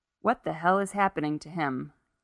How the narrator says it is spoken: Gary asked, the words falling flatly from him

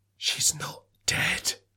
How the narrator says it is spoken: he whispers

